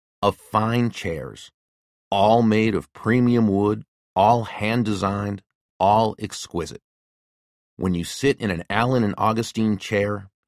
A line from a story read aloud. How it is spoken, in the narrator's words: Ben began slowly, deliberately